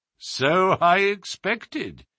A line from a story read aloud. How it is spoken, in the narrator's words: said Holmes, chuckling